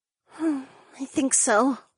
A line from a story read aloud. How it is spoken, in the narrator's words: Ariana sighed